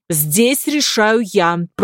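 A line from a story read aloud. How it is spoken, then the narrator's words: Commanding tone. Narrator (Russian): произнес повелительным тоном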